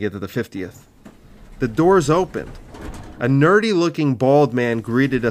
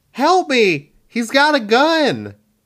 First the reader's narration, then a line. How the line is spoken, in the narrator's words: Our hostage yelled